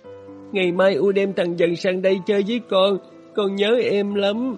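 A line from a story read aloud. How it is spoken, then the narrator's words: Sobbing voice. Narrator (Vietnamese): Nó nói bằng giọng nức nở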